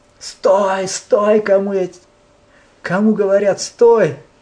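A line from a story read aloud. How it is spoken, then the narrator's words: Angry shouting. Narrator (Russian): он в гневе кричал Ангулимала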